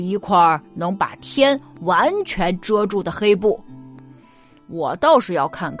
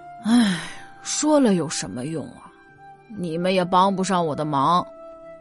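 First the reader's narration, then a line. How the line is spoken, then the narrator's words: Listless sigh. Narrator (Chinese): 张姑老无精打采的，最后叹了口气说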